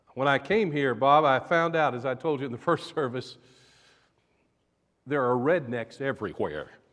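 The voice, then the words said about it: Southern US accent. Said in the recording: “As you can tell, I'm from the South. Maybe you picked that up from my accent.”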